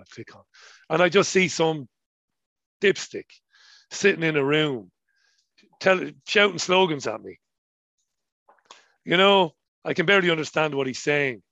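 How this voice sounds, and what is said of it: Colloquial Irish accent. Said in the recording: “my colloquial Irish accent”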